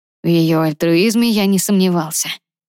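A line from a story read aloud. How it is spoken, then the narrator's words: Heavy sigh. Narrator (Russian): тяжело вздохнул Ронан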